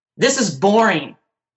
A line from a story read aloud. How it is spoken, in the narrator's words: Jeremiah yelled